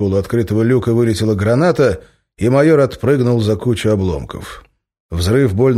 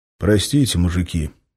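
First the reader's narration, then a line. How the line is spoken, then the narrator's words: Quiet. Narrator (Russian): тихо произнес он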